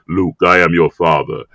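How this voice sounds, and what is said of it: Deep James Earl Jones impression. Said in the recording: “deep voice guy who sounds like James Earl Jones ... I've imitated him”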